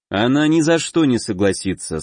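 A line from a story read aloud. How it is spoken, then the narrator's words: Calm, confident. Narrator (Russian): спокойно произнес, полностью уверенный в своих словах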